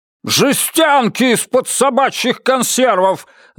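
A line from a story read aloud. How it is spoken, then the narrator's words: Yelling. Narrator (Russian): заорал Мальоре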